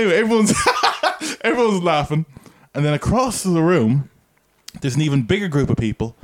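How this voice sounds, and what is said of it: Usual voice. Nothing is said of it.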